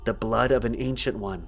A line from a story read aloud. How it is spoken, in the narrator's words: said to herself, so quietly that I almost didn't hear it at all